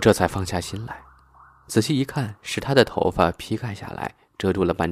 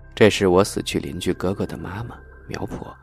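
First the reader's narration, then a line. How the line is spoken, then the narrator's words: Whisper in ear. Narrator (Chinese): 苗丽小声在我耳边说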